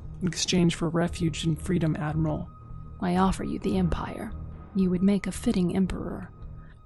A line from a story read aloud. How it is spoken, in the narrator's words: she uttered smoothly